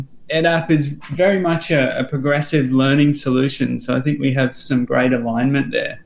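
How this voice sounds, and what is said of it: Australian accent. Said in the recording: “as you might find by my accent, it's actually an Australian company.”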